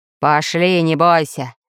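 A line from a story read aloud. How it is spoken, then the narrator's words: Growled. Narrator (Russian): прорычал Буль-Буль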